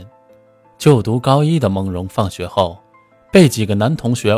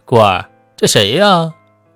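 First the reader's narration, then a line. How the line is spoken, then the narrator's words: Amused laughing male classmate. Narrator (Chinese): 身旁的男同学饶有兴致的笑道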